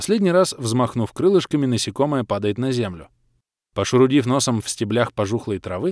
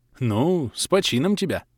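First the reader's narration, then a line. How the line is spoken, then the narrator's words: Vague grunt. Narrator (Russian): неопределенно хмыкнул я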